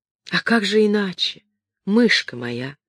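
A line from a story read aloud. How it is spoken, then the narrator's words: Affectionate female voice. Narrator (Russian): сказала она ласково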